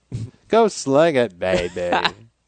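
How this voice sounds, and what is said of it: Bad Austin Powers-style impression. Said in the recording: “I imagine Bruce Arians dressed up as Austin Powers... It's a terrible impersonation... It's pretty bad... Yeah, it's bad.”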